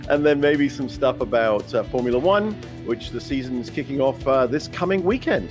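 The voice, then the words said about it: Speaks with a noticeable accent. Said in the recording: “you can tell by my accent that I know all about NASCAR”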